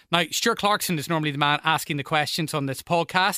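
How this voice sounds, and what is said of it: Northern Irish accent. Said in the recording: “I'm sure you can tell from my accent that I'm from Northern Ireland.”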